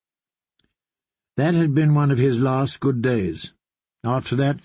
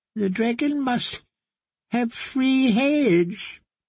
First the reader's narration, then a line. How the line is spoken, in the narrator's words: he wailed